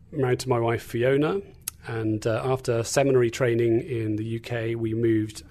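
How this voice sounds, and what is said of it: English accent. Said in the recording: “you can probably tell from my accent that I'm not from Indiana... I'm from England, not Australia, as sometimes people like to think”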